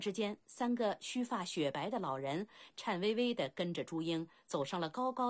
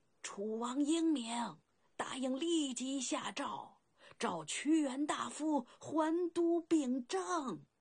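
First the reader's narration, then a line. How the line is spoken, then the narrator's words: Old hoarse shout. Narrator (Chinese): 一个苍老嘶哑的声音喊了起来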